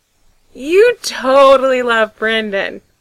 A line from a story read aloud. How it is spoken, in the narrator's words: Frank grins wildly, declaring